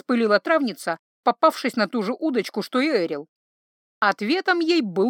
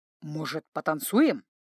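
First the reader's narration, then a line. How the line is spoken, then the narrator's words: Quiet, slightly shy question. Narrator (Russian): тихо и чуточку смущенно спросил Серый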